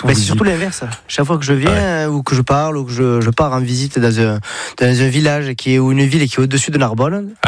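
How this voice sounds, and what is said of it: Singsong southern French accent. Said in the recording (French): “vous venez pas du nord de la France ... on a l'accent, j'ai le package ... c'est chantant ça ... Toi, t'es du sud.”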